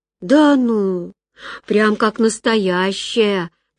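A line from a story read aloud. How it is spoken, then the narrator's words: Drawling sick woman. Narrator (Russian): протянула больная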